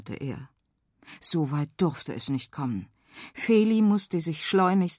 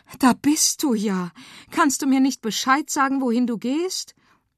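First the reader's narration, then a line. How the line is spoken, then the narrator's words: Excited mother calling. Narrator (German): Mama, die aufgeregt rief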